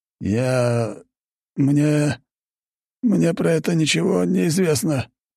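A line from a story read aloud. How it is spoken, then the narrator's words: Forced-out stammer. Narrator (Russian): выдавил он наконец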